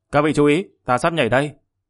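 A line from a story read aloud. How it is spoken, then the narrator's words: Angry snort, loud call. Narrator (Vietnamese): Hắn tức giận hừ lên một tiếng, hướng về phía mọi người lớn tiếng kêu to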